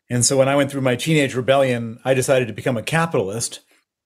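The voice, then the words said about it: American accent. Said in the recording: “you hear my accent. I'm American”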